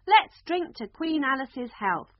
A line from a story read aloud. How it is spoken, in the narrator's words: the Red Queen screamed at the top of her voice